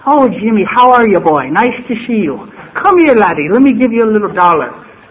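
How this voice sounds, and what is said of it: Irish brogue. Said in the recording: “they all have the brogue.”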